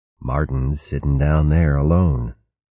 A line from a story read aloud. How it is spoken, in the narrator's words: she said in a low voice